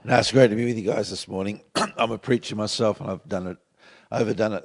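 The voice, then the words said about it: Hoarse, partly lost voice. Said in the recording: “I know you've half lost your voice”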